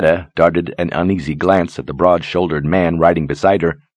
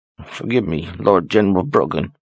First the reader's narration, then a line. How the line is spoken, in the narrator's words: murmured